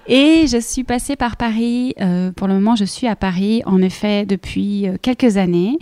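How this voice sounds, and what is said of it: Slight Belgian French accent. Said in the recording (French): “je suis belge, euh, comme ça, vous le savez tous pour le petit accent.”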